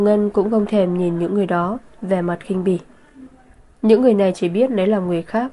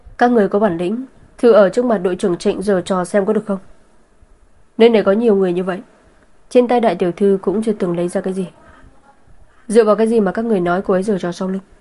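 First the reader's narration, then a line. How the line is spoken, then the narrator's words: Cold laugh, angry. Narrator (Vietnamese): Vân Hàn cười lạnh, tức giận nói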